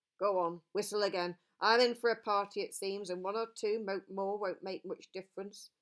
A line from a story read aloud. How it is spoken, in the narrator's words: growled Bjorn